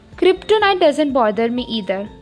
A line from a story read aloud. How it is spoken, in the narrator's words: he chuckled